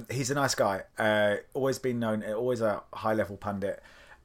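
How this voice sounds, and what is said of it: Slightly hoarse, fading voice. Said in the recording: “my voice is going. So if I'm dipping in and out, my voice is going slightly.”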